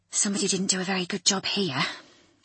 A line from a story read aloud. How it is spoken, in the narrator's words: she muttered